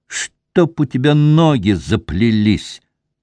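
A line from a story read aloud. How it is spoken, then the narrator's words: Spiteful through gritted teeth. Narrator (Russian): процедил, наконец, Масол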